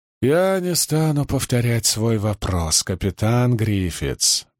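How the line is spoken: Soft. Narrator (Russian): мягко сказал Леклерк

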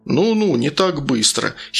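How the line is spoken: Giggling. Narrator (Russian): хихикнул Сергей

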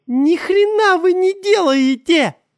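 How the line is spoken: Woman shouting. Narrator (Russian): закричала женщина

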